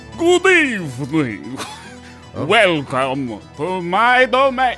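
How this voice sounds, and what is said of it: Dracula character voice. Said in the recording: “do the voice ... You're having a Drac attack. ... Dracula flow.”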